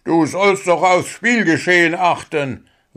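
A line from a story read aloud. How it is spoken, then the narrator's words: Angry. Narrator (German): war Grabi erbost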